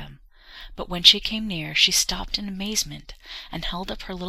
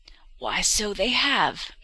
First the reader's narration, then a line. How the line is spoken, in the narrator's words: exclaimed the old woman